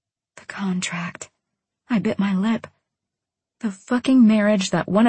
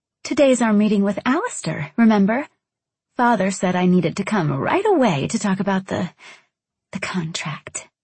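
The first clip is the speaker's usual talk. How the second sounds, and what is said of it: Sweet valley girl voice. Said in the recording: “sweet valley girl voice”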